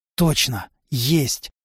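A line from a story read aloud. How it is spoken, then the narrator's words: Young man's cautious whisper. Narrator (Russian): боясь спугнуть, шепотом сказал парень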